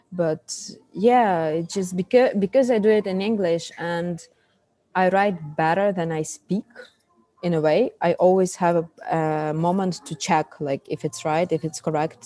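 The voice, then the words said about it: Ukrainian, Russian-speaking accent in English. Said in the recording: “I have this like Russian speaking accent ... I'm Ukrainian”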